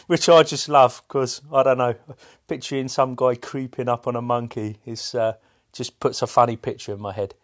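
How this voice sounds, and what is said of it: English accent. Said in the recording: “in England, if you couldn't tell by his accent.”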